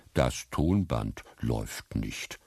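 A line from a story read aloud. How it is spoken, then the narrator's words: Plain. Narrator (German): sagte sie stattdessen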